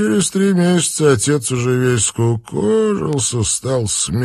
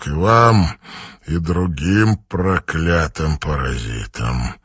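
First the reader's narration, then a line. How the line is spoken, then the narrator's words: Grim promise. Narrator (Russian): мрачно пообещал Линк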